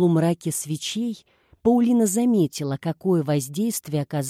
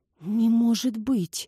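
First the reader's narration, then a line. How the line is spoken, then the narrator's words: Whisper. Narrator (Russian): прошептала Урсула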